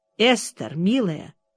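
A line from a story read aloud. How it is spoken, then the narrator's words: Very calm. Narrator (Russian): проговорила очень спокойно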